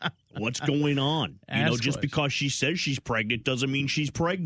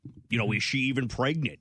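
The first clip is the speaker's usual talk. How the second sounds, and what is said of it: Jesse Ventura impression. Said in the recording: “in my best Jesse Ventura voice”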